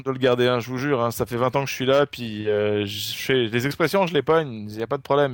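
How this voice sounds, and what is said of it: French Marseille accent. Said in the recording (French): “tu avais un accent ... français ... mon super accent français, qui n'est pas un accent parisien au passage ... Je viens de Marseille”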